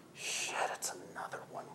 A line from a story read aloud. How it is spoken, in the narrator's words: one of them mutters